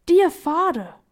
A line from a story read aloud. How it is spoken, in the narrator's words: cried Violet